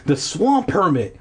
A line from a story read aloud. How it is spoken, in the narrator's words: Will cried